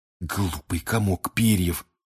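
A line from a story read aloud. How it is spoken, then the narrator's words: Hiss. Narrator (Russian): прошипел Рон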